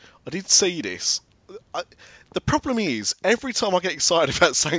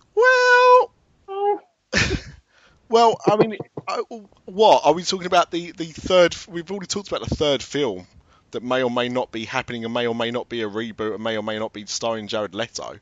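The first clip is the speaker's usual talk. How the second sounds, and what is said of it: Impression of Jim Hill. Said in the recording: “my Jim Hill impression.”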